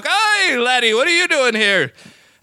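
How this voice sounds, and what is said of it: Put-on Irish accent, old movie cop. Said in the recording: “you got to do it like an old Irish cop from the movies ... with an Irish accent”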